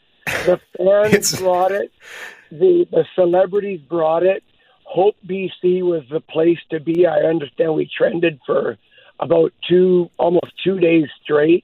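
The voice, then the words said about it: Hoarse, strained voice. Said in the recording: “why I'm hoarse ... I'll let you rest up that voice”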